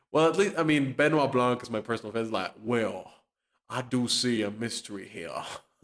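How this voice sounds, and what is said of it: Put-on Memphis Southern accent. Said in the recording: “I'm doing a little Memphis voice.”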